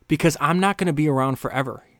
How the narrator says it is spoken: Siggy replied

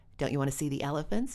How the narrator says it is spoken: she asked him

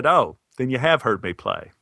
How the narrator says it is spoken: I laughed and said

